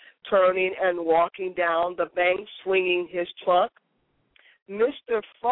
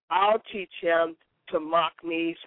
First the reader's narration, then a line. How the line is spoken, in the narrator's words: said Mr